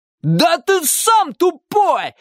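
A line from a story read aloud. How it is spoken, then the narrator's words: Yelling. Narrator (Russian): заорал мальчик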